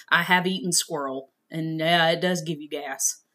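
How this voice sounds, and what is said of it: Thick regional accent. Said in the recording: “My accent probably came out really thick there.”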